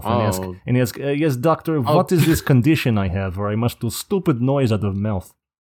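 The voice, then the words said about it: Bad put-on Russian accent. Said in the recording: “everyone's favorite Russian ... a very bad accent”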